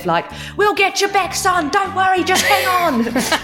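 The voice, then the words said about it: Australian accent. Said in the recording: “that accent is gorgeous ... you become more Australian whenever we talk ... full Aussie”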